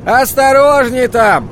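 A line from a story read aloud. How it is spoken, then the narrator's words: Yell. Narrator (Russian): завопил Деркин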